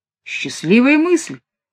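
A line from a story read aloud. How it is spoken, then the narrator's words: Exclaimed. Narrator (Russian): воскликнул Ван Крайзен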